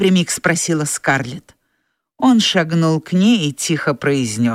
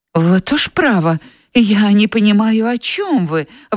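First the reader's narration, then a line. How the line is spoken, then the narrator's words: Exclaimed. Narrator (Russian): воскликнула Скарлетт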